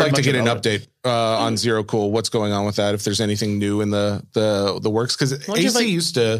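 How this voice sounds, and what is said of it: Usual voice. Nothing is said of it.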